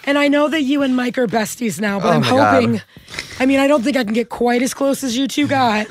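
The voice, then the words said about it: Hoarse, strained voice. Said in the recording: “laryngitis. My voice is still a little struggly, but slightly better.”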